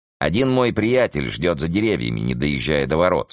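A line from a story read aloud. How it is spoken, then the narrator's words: Plain. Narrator (Russian): сказал он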